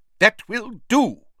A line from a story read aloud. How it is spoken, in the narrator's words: he said sharply